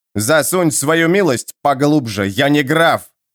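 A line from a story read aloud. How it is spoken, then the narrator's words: Barked. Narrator (Russian): рявкнул лорд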